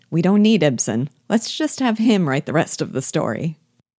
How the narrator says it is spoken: I laughed, and said

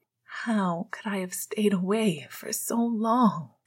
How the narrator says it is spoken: Sirius asked, mostly to himself, through a wet sigh

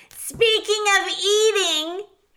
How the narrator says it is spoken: shouted one of the rats

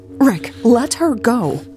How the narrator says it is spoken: Elle said urgently

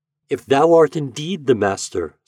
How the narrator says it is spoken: said Eloise

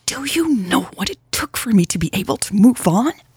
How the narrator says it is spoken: Louise hissed, her shoulders shaking

